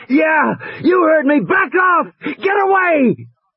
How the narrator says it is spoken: Regis was shouting

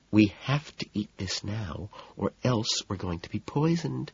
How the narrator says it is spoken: she murmurs

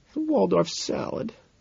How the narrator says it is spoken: she murmurs

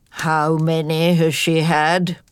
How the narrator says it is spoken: inquired Badger gloomily

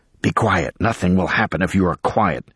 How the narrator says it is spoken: One man hissed

